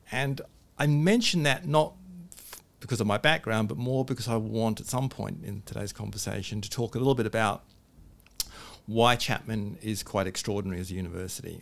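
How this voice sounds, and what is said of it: Mixed English-Australian accent. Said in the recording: “I sound like I've just got off the boat ... I was born in England, spent some of my time in Australia, and so I have this weird accent”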